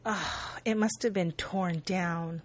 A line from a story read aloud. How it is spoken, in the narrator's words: Lindsay says sadly